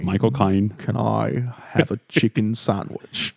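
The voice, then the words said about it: Michael Caine impression. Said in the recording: “do a Michael Caine voice”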